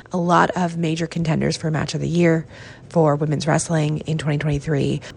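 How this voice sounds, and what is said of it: Hoarse, congested voice. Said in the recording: “my voice is not what it typically is ... dealing with a bit of a cold ... just getting my voice together enough to record this is something”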